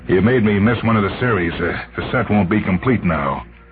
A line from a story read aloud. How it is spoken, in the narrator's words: He said bitterly